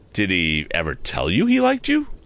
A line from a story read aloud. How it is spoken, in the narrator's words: I asked indignantly